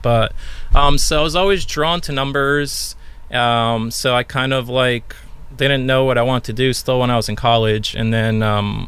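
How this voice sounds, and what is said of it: New York accent. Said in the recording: “Might have just dropped a hint on my accent... I think it's New York.”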